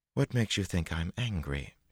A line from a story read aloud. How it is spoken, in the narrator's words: She said coolly